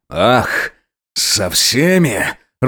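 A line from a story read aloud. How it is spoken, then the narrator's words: Snarling like wild beast. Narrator (Russian): рычал, словно дикий зверь над его головой старший лейтенант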